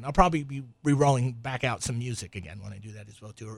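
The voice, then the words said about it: Strained, worn-out voice from yelling. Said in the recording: “you can see me yelling here, and I'm running out. My voice is running out. I use all my voice up front.”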